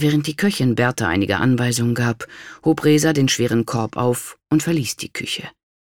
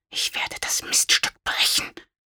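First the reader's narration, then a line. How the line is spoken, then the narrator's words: Furious whisper. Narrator (German): flüsterte voller Wut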